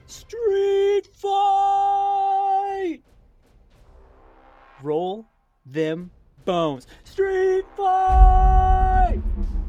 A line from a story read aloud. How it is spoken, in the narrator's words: The homeless man on the corner shouts